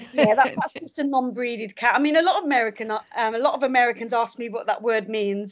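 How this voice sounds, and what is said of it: British accent. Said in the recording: “you're obviously from your accent, people may be wondering, you're based in the UK”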